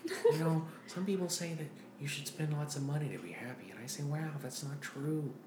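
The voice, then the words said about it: Owen Wilson impression. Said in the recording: “He just has an Owen Wilson speech. ... Owen Wilson.”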